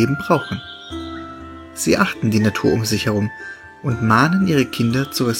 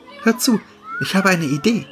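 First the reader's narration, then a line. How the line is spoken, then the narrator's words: Called out. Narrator (German): rief sie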